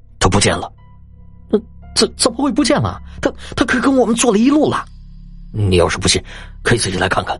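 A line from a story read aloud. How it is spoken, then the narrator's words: Panting, flustered. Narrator (Chinese): 程七这会儿啊，已经是满头大汗，喘着气道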